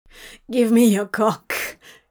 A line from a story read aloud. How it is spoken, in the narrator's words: begged